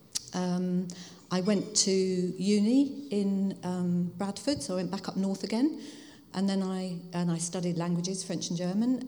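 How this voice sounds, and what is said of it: Hertfordshire English accent. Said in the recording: “I grew up in Hertfordshire, which you can probably tell by my accent.”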